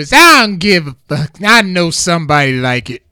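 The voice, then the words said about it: Imitates a movie character's voice. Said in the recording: “my worst Miss Pearly impression”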